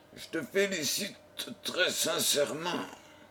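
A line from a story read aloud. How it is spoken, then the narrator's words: Happy murmur. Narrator (French): murmura John Jervis, heureux de voir que la belle Miss Lillian avait dit la vérité et que son fiancé était innocent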